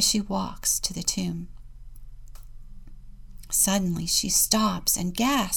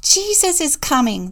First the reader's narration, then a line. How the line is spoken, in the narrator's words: they shouted gleefully